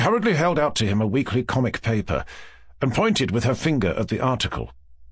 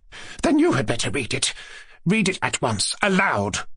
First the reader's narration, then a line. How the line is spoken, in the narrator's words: said Lizaveta Prokofievna, addressing Kolya, impatiently